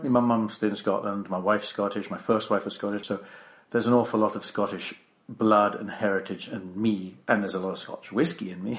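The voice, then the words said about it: English accent. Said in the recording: “my dim and distant past was an Englishman, obviously. You can tell by the accent... you can tell that I don't have an Australian accent”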